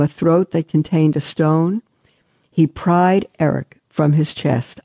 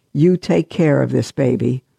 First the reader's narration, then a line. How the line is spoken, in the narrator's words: said in a firm, commanding voice